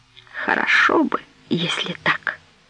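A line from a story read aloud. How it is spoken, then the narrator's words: Barely audible reply. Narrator (Russian): еле слышно ответила Ирена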